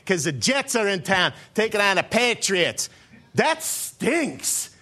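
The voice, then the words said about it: Put-on New England accent. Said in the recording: “I got to get my New England accent going on here ... I'll just go back to my normal voice”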